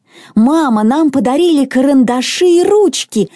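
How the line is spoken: Excited exclamation. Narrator (Russian): воскликнула Мона

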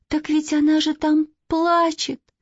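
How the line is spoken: Sudden, plaintive. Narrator (Russian): вдруг жалобно сказала Катя

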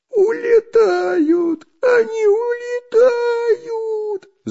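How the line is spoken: Shrill squeal. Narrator (Russian): завизжал Дырка

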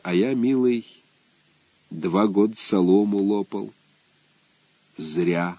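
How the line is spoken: Quiet. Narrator (Russian): Егор Иванович сказал тихо

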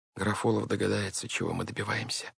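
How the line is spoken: Gloomy objection. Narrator (Russian): мрачно возразила сестра

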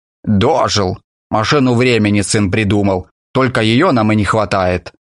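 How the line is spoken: Grandfather grumbling. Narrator (Russian): дедушка ворчал

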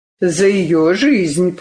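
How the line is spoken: Confirming. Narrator (Russian): подтвердил Карелин

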